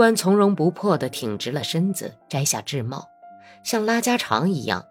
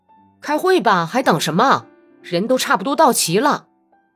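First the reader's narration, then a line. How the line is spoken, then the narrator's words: Impatient delicate-voiced call. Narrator (Chinese): 不知道是谁等得不耐烦了，用娇嫩的声音喊道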